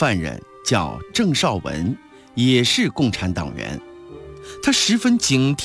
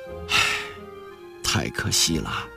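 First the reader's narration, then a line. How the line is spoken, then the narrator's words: Long sigh. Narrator (Chinese): 郑绍文长叹一声说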